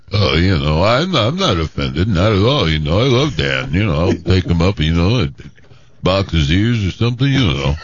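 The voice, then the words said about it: Imitates another person's voice. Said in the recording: “does a great impression of you”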